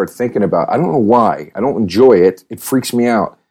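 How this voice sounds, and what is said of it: Usual voice. Nothing is said of it.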